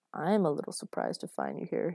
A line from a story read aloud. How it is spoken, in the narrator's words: he muttered to himself